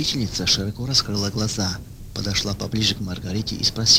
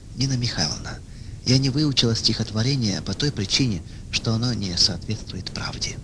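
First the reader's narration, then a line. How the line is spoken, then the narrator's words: Calm answer. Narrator (Russian): она спокойно ответила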